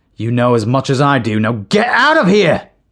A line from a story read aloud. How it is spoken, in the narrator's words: shouted Morris